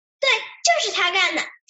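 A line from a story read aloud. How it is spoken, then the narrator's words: Extremely excited shout. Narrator (Chinese): 帅帅无比激动地喊道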